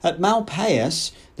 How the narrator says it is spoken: the savage was incoherently mumbling

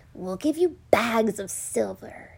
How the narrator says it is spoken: whispered in the night

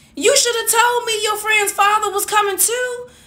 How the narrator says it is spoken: she shouted out

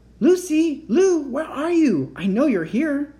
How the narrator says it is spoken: He even shouted out

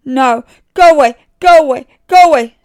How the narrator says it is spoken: screamed David

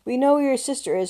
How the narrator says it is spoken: Charlotte panted

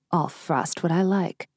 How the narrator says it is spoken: says

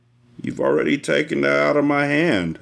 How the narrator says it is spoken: I said, and my voice sounded slurred

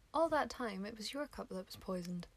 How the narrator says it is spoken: she murmured

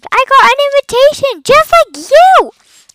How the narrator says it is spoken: he screamed

